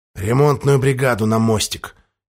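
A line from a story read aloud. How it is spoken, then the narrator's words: Quiet, captain via speaking tube. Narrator (Russian): тихо произнес переговорную трубу капитан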